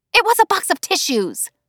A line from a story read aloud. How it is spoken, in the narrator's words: More hissing